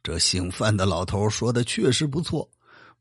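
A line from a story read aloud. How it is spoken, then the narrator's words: Sighing with admiration. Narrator (Chinese): 多尔衮感叹的说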